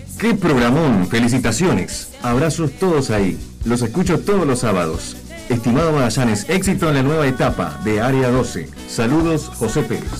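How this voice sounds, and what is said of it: Radio announcer voice. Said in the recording (Spanish): “Léelo vos... con tu voz de locutor”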